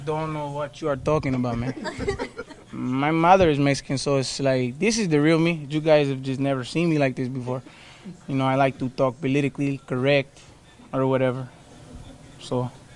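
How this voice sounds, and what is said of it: Put-on accent. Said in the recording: “Are you using this accent”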